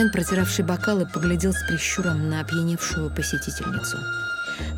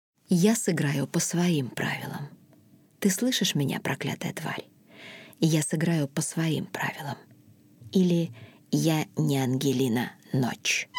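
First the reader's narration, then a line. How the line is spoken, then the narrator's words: Passionate whisper. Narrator (Russian): женщина страстно прошептала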